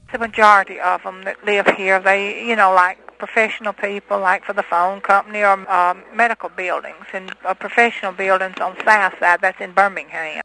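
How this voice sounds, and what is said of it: Inland Southern US accent, drawn-out words. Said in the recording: “Birmingham is the leading example of the Southern accent as fully developed. It's in Birmingham, Chattanooga, Knoxville, is what we call the Inland South ... what you hear is someone said lingering over the words as they speak them”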